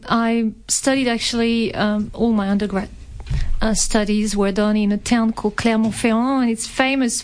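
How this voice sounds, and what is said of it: Light French accent. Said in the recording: “you have this fabulous accent that you know, we can barely hear, but it is awesome ... as you can tell from the accent, I was born in France”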